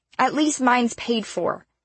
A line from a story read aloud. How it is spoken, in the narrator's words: she shouted, albeit a bit garbled